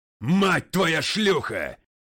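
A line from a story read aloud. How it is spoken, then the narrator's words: Barked. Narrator (Russian): рявкнул МакГрей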